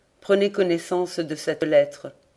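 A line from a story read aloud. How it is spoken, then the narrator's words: Harsh tone. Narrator (French): prononça-t-il d'un ton dur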